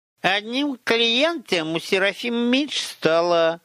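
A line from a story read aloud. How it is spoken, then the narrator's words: Nasty sing-song raven voice. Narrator (Russian): гнусным голоском пропел Чума, в обличье все того же ворона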